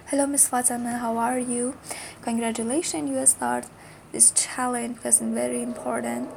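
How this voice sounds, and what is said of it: Husky, hoarse voice. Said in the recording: “sorry for my voice. Today is very husky because 2 days ago I got a cold”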